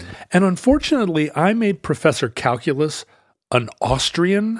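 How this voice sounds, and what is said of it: Usual voice. Nothing is said of it.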